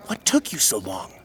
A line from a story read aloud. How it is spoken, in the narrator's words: Zeta whispered